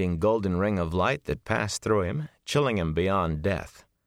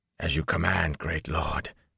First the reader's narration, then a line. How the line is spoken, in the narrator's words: he whispered hoarsely